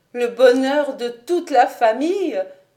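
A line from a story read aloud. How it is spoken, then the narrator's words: Pained exclamation. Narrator (French): s'écria douloureusement Lucie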